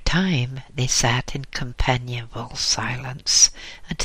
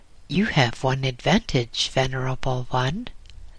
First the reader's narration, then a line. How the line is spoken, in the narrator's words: laughed the young monk